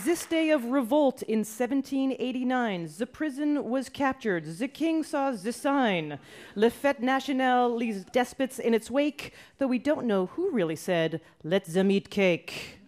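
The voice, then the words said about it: Terrible put-on French accent. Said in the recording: “That was a terrible French accent ... I was doing someone from France that has lived a long time in Canada and moved to Brooklyn.”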